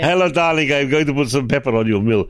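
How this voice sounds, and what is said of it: Put-on Polish-Italian accent. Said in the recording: “That's not an Italian accent. ... It's a Polish Italian accent.”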